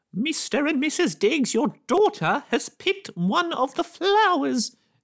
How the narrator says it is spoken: exclaimed Mrs

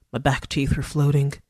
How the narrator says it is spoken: muttered

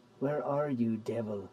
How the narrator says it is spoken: I hissed

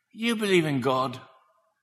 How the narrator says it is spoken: He whispered

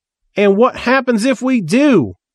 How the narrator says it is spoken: Reverend Sparkle shouted, yelping as Sister Mika kicked him in the ankle

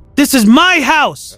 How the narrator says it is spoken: I screamed

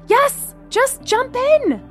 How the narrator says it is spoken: Gemma shouted back

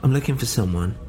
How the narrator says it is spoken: I said

